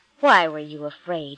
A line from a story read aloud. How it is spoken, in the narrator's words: he asked